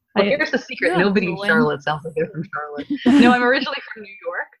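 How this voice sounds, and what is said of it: Slight northeastern US accent. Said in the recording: “You don't sound like you're from Charlotte, North Carolina ... there's a little bit of a northeastern accent there”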